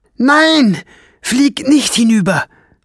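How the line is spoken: Shrill cry. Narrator (German): rief Fliegenbein mit schriller Stimme

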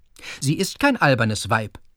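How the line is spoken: Stern. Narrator (German): sagte Fritz streng

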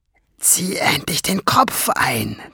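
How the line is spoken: Hissed. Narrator (German): zischte Schwefelfell

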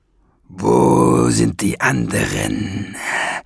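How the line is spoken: Impatient hiss. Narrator (German): fauchte und sah sich ungeduldig um

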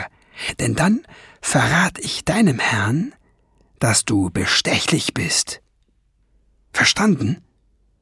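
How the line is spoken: Whispered. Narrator (German): flüsterte

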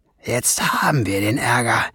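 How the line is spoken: Murmured. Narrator (German): murmelte Schwefelfell

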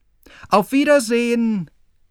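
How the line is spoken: Called out. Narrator (German): rief er noch

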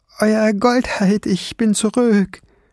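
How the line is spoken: Soft call. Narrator (German): rief leise

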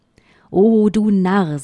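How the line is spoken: Plain. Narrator (German): sagte sie

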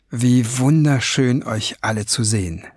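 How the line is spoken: Plain. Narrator (German): sagte

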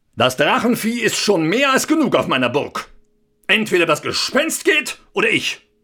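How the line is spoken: Calling out. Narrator (German): Er rief

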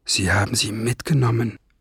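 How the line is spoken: Murmured. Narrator (German): murmelte Ben

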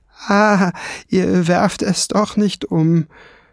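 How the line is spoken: Sighing. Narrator (German): seufzte Kiesbart

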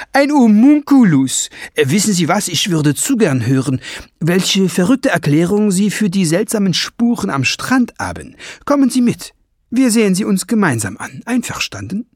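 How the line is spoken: Call. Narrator (German): rief

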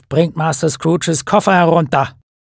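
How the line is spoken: Terrible voice calling. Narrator (German): Eine schreckliche Stimme im Hausflur rief

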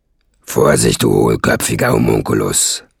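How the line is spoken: Angry hiss. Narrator (German): fauchte Nesselbrand ihn an

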